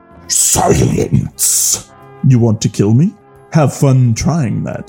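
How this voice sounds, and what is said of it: Shouted, intimidating villain voice. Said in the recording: “Snoke shouted, back in an intimidating voice.”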